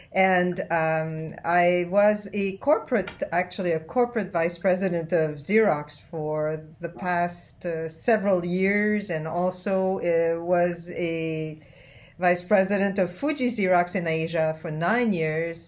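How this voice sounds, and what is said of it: French-Canadian accent. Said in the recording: “I am a French-Canadian. That's where my accent comes from.”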